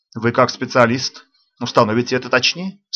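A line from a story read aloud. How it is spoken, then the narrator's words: Dry. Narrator (Russian): сухо ответил хозяин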